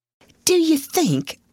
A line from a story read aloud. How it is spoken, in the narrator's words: Becky faltered once in a whisper